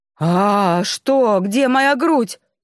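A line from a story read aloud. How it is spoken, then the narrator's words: Screaming even louder. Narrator (Russian): заорала я еще громче, увидев обнаженный мужской торс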